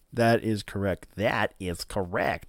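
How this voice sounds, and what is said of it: Imitates another person's voice. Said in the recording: “In my best Chris Farley voice”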